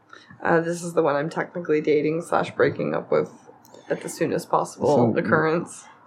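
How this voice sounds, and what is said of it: Raspy, hoarse voice. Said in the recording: “Raspy McRasperson right now”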